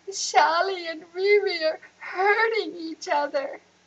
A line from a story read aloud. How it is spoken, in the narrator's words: Anissa sobbed